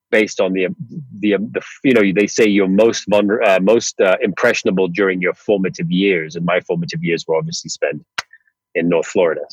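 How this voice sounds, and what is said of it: American accent. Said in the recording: “you can probably tell by my accent as well that's, you know, stuck with me for a long, long period of time.”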